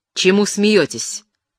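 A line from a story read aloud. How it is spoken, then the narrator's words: Stern question, captain. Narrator (Russian): строго спросил капитан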